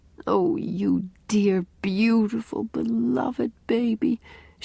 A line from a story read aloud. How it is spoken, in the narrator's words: she mumbled